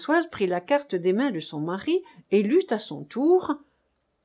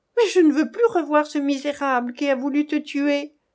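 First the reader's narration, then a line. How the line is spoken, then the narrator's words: Angry outcry. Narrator (French): s'écria-t-elle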